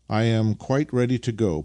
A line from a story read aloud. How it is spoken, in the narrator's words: put in Nikita cheerfully